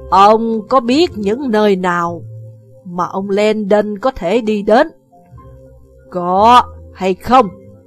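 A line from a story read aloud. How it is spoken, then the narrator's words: Harsh emphatic voice. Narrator (Vietnamese): Bà gằn giọng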